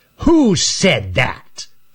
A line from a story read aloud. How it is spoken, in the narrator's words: snarled Raker